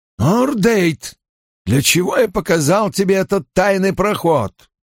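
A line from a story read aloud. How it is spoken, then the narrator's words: Barking. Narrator (Russian): рявкнул Найл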